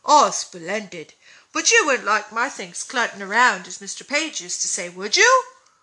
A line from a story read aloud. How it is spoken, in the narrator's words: cried Dan, with sparkling eyes